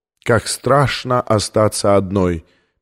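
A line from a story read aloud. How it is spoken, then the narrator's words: Sad female singing. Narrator (Russian): печально запел женский голос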